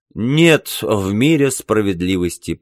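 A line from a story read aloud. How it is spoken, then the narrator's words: Pained moan. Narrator (Russian): простонал Билл, когда цепкие пальцы Смертвича впились в его плечо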